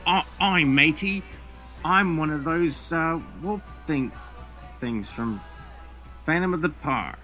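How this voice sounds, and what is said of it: Put-on Australian creature voice. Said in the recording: “I'll do the voice. ... Oh, you don't think they would sound Australian?”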